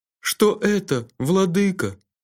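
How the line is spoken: Timid question. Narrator (Russian): робко спросил глава делегации

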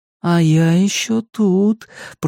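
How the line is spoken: Singsong voice. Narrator (Russian): произнес Макс нараспев

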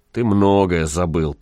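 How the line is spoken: Grumbling wanderer. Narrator (Russian): проворчал странник

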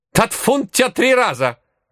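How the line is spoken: Old woman barking. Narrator (Russian): рявкнула бабка

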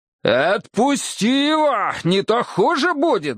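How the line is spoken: Furious growl. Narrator (Russian): зарычал я, в бешенстве

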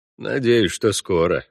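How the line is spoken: Gruff mutter. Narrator (Russian): буркнул Парт

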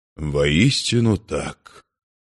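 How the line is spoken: Sad. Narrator (Russian): печально отозвался Эльронд

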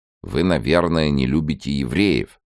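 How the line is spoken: Plain. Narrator (Russian): спросил еврей

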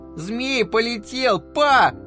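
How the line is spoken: Yelling. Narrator (Russian): заорал Гэдж

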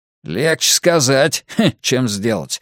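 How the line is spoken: Snorting. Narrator (Russian): фыркнул Грюнальди

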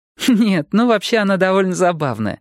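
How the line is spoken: Laughing. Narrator (Russian): Нелли рассмеялась

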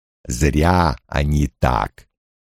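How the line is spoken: Rumbling, almost a growl. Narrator (Russian): Громыхание Лойла прозвучало почти как рычание

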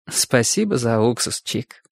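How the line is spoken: Sad, understanding, smiling. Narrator (Russian): всепонимающе, грустно улыбнулась Чику и сказала

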